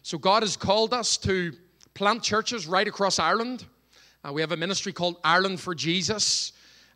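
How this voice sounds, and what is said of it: Irish accent. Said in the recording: “Can everyone follow me okay with the accent? ... Do you like the Irish accent?”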